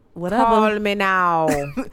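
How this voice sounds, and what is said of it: Miss Cleo impression. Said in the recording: “You know who you sounded like just now? ... Miss Cleo.”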